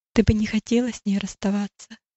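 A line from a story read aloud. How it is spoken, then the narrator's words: Nanny's gentle question. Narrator (Russian): Няня ласково спросила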